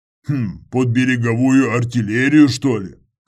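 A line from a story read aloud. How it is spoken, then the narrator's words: Snorted. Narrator (Russian): хмыкнул Федор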